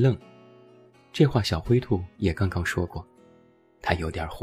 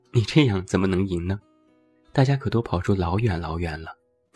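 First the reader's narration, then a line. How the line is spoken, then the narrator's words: Suppressed amusement. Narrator (Chinese): 小白兔莫名想笑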